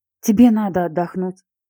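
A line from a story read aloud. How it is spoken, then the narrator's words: Sigh. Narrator (Russian): вздохнула Вика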